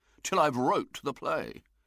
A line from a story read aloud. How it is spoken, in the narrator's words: said William irritably